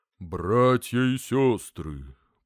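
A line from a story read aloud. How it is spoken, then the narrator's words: Sepulchral priest voice. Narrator (Russian): произнес отец Трифон за могильным голосом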